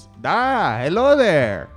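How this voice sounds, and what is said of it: Character voice with foreign accent. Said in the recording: “Oh, where are you from? What is this accent?”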